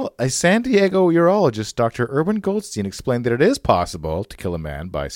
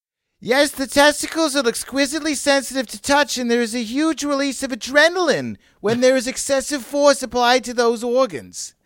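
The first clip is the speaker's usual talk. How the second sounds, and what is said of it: Deliberately bad put-on Jewish accent. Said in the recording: “I'll do a terrible Jewish accent here.”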